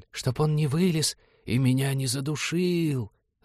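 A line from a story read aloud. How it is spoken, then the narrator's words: Sepulchral, ghostly voice. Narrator (Russian): загробным голосом сообщила девушка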